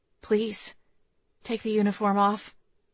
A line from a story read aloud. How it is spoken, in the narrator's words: I whispered